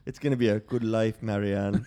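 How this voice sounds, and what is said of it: Put-on accent. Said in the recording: “I'm getting pretty good at the accent there.”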